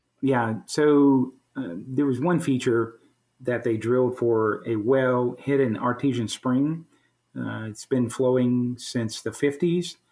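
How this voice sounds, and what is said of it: Southern American accent. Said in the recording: “developed that stronger Southern accent ... our Southern accent ... It's an endearing accent.”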